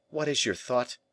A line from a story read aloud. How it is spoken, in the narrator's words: he exclaimed